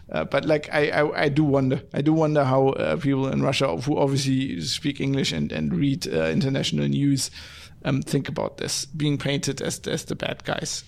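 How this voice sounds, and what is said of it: German-accented English. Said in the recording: “as a German ... because of my accent”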